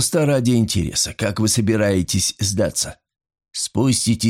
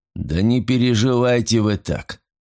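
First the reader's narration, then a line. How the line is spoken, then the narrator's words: Dry. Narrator (Russian): сухо сказал Файнхорн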